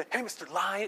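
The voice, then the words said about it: Quiet, hushed speech. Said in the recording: “You say it quietly”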